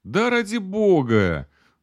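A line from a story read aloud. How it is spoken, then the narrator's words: Girl exclaiming, then laughing. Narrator (Russian): воскликнула девушка и рассмеялась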